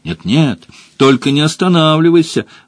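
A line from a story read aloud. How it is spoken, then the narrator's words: Excited chorus exclaiming. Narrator (Russian): воскликнули несколько лиан, вдохновленные удачей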